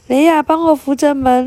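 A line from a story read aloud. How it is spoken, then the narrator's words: Shouting. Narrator (Chinese): 爸爸大喊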